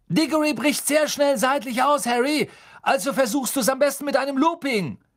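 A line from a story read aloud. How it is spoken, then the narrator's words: Called after someone. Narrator (German): Wood rief ihm nach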